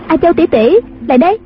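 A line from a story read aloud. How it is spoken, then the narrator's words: Giggling. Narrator (Vietnamese): A Bích cười khúc khích nói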